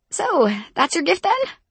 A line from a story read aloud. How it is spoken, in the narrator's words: I squeaked